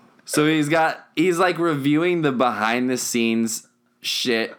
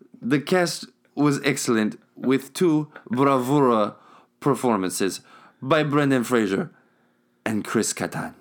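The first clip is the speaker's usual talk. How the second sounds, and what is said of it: Put-on Spanish accent. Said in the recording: “My accent is going like ... it's changing. ... Slightly Spanish. ... Oh, it's very Spanish.”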